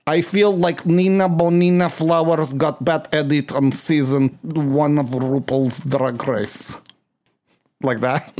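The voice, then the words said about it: Put-on Russian accent. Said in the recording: “is that good Russian accent? ... Yes, it's very good.”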